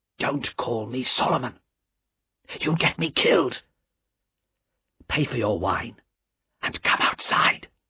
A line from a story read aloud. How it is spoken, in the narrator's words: said the man in a low, frightened voice